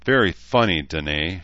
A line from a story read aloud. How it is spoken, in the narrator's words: Shida replied with a rueful chuckle